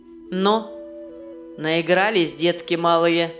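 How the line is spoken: Mocking question. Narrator (Russian): насмешливо спросил Вий

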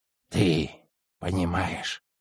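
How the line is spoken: Old man's whisper. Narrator (Russian): прошептал дед

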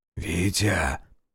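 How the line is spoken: Whisper. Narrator (Russian): прошептал

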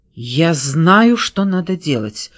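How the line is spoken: Sudden exclamation. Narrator (Russian): вдруг воскликнула она

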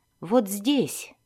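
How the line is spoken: Plain. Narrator (Russian): сказала она

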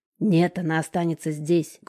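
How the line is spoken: Menacing bark. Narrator (Russian): грозно рявкает бугая Жека

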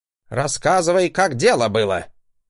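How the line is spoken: Angry bark. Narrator (Russian): Гаркнул он

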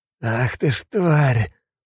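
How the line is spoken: Hissing. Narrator (Russian): прошипел он

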